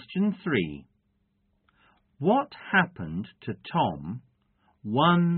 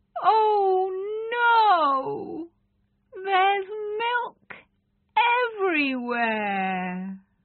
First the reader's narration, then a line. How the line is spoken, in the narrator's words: Tom's mother cried out